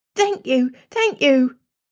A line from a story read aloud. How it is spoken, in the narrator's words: gasped